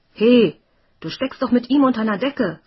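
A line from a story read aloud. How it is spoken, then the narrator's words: Called out. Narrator (German): rief der eine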